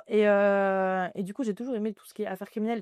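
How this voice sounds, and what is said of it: Very thick French regional accent. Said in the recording (French): “avec mon accent à couper au couteau”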